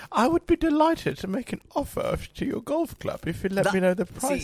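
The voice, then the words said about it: Put-on posh old British voice. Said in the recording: “You don't need to put an old man British voice on ... You can do a better posh voice than a Chinese voice”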